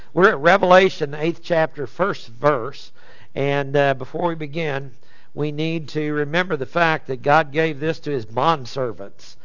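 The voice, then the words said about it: Voice going hoarse, strained. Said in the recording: “I started losing my voice in the middle of it”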